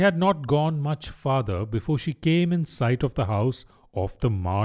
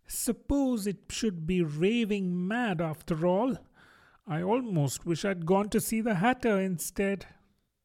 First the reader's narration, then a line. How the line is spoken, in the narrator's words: rather timidly, saying to herself